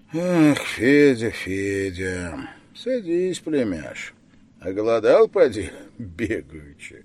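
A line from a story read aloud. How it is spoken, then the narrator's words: Tired, no longer stern. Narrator (Russian): спросил он уже не сурово, а устало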